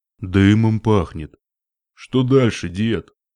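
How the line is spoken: Deep bass question. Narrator (Russian): спросил он глубоким басом

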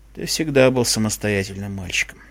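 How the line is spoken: Quiet father. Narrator (Russian): тихо произнес отец

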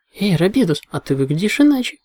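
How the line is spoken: Excited exclamation. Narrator (Russian): воскликнула розовая пони

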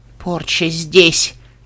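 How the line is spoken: Forced out. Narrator (Russian): выдавила Бенши Свинг

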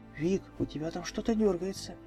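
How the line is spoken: Giggling whisper. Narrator (Russian): хихикнув, прошептала Рэнти

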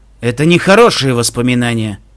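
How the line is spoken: Grumbled. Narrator (Russian): пробурчал Стилхуфс

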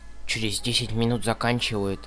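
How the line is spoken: Whisper. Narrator (Russian): шепнула Дитси

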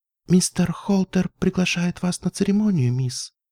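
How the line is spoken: Quiet. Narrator (Russian): тихо проговорила она

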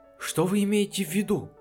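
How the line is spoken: Frightened question. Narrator (Russian): испуганно спросил работник мастерской

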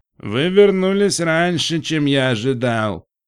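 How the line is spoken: Drawling, nasal accent. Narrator (Russian): сказал верблюд, растягивая слова с примесью гнусавого акцента

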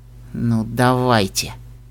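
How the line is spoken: Through gritted teeth. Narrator (Russian): процедил Литл Пип сквозь зубы

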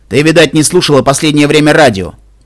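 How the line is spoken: Thundering voice. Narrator (Russian): прогремел голос Стилхуза

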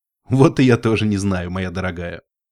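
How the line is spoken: Chuckling laugh. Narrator (Russian): хохотнул единорог

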